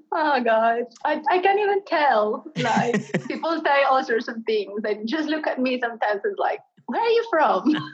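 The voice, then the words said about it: Mixed Australian, Colombian, Cockney accent. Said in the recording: “you have an amazing sort of combination of accents. There's definitely the Australian part, there's the Colombian part, and there may even be a little bit of London Cockney in there somewhere. It's truly, you have a global accent for sure.”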